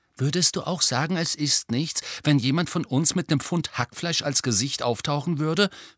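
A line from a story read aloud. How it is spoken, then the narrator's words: Plain question. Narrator (German): fragte Ron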